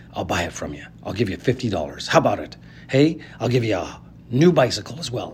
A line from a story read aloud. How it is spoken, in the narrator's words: the man whispered